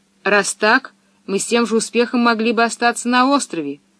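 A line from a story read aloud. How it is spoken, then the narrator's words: Angry declaration. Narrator (Russian): сердито заявил Томми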